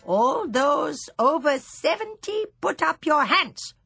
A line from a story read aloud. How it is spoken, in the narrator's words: she barked suddenly